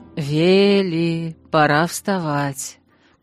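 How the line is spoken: Affectionate call. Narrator (Russian): позвал любимый голос

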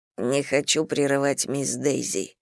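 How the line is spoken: Hoarse whisper. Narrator (Russian): хрипло шепнул Чандлер в ответ

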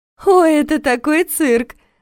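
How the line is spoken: Laughing. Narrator (Russian): Рассмеялась Алиса

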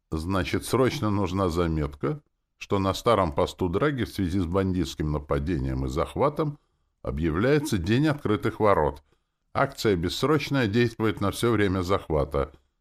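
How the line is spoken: Businesslike tone. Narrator (Russian): заговорил я деловым тоном

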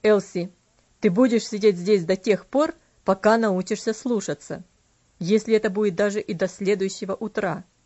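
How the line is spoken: Very stern. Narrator (Russian): он сказал очень суровым тоном

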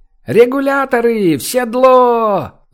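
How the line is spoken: Straining yell. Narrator (Russian): Заорал, надсаживаясь, какой-то смутно знакомый голос

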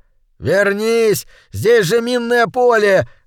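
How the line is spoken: Shouted after someone. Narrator (Russian): закричал ему вслед приятель

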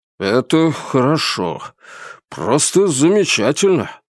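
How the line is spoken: Relieved exhale. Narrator (Russian): Грибский с каким-то облегчением выдохнул

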